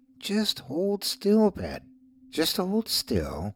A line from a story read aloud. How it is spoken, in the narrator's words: the fake voice cooed in an almost cruel way